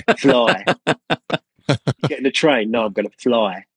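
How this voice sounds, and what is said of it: Cockney accent demonstration. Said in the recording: “in a Cockney accent, particularly the diphthongs”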